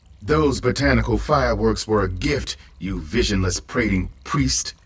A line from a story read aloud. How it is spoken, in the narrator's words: the revel goddess growled